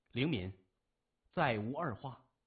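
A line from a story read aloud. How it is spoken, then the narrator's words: Flat, indifferent. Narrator (Chinese): 林敏淡淡地说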